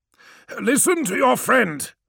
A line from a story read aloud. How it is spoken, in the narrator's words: snapped Menkaure